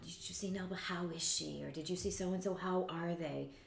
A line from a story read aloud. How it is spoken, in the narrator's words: people whisper